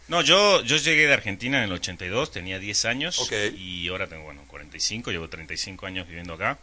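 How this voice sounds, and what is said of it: Argentine Spanish accent. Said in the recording (Spanish): “Che, tú eres argentino, ¿de dónde sale este, este acento?”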